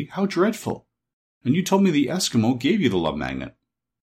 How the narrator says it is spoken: cried Dorothy

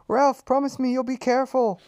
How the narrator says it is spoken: pleaded his mother

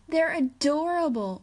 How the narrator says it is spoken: Wanda shrieked

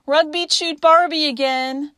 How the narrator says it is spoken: wailed

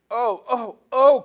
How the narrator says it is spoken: cried the two girls

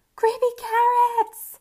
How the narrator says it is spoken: he shouted

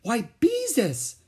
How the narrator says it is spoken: she exclaimed

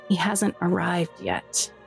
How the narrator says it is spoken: Rora said, taking a deep sigh

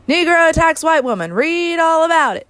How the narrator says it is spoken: a paper boy on a platform hollering

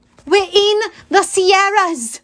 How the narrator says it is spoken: Zoe yelled

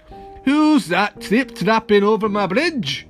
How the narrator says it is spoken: roared

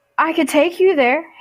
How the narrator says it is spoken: Hades blurted

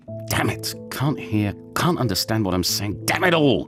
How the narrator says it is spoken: he couldn't help muttering

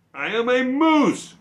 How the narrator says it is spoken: cried Morris

